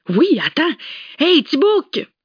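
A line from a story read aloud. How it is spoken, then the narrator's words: Shouting sturdy woman. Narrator (French): cria la costaude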